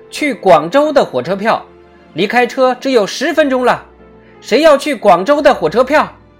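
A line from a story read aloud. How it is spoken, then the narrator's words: Loud shout. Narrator (Chinese): 甲大喊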